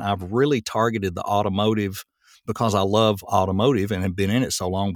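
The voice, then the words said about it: Speaks with a regional accent. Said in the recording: “what I'm finding with having this accent, I had two options. I could either fail because I had an accent”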